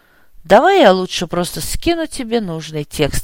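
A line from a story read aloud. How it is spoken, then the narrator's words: Sigh. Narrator (Russian): вздохнул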